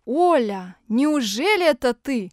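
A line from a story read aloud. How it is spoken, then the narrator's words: Exclaiming elderly woman. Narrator (Russian): воскликнула бабушка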